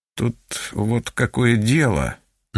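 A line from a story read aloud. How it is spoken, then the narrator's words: Mumbling. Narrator (Russian): начал мямлить он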